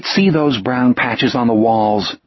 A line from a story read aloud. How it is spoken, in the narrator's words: Jack said grimly